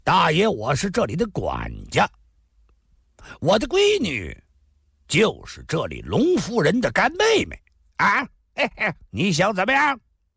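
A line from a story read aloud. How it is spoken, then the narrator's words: Loud, assertive. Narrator (Chinese): 叉着腰大声说道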